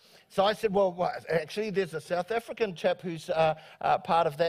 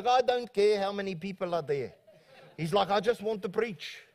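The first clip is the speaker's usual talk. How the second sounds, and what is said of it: Put-on South African accent. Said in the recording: “I'm doing my South African accent”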